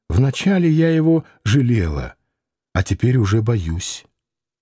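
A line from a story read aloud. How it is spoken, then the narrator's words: Sighing. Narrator (Russian): она сказала, вздохнув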